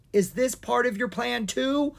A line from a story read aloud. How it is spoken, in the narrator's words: Owen gasped as he struggled to pull her free